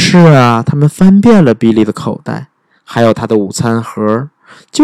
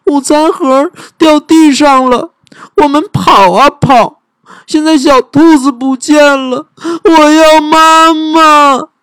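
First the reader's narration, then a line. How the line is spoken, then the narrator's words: Crying. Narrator (Chinese): 比利哭起来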